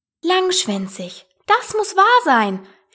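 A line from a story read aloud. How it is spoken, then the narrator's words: Exclaimed. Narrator (German): rief Alice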